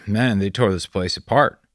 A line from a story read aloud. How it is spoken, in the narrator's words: Bear sighed